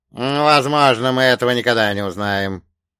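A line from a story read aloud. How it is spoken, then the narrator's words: Creaking dead voice. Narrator (Russian): проскрипел мертвец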